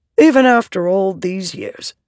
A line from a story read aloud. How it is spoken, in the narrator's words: said